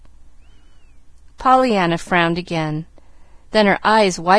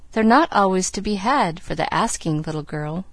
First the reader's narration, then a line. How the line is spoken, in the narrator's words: very gravely the doctor said